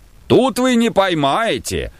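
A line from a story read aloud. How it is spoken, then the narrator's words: Distant shout from shore. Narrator (Russian): кричал им с берега Пантелей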